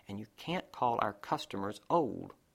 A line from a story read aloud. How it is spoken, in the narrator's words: said Patrick, and then under his breath